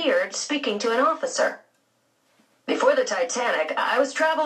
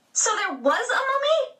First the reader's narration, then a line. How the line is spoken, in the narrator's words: Phoebe exclaimed